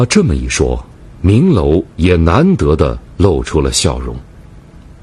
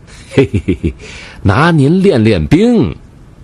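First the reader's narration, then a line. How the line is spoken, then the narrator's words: Chuckling. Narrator (Chinese): 阿成呵呵一笑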